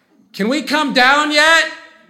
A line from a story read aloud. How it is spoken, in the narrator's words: Kira yells